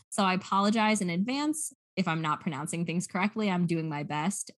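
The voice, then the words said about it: American English accent. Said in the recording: “I'm using my American accent because I speak American English”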